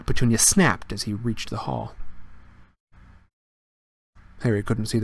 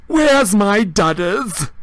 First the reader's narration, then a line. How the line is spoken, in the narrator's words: roared Aunt Marge